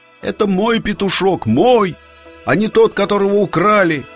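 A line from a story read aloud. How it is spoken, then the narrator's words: Fox shouting. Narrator (Russian): лиса крикнула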